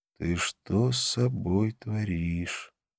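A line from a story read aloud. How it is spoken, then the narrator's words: Quiet speech. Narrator (Russian): наклонившись поближе, тихо сказал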